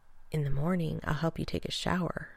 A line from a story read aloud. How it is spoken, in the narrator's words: John whispered into Rodney's ear